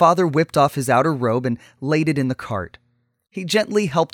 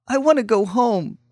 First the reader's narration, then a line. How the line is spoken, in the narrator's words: she whimpered